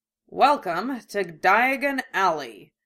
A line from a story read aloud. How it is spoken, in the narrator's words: Genkai said dryly